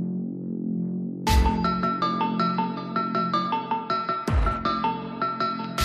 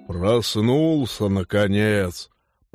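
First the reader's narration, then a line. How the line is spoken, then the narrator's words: Grumbling. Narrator (Russian): проворчал Норл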